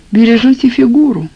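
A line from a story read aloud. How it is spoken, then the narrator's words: Wistful sigh. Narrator (Russian): вздохнула, как о чем-то несбыточном, хозяйка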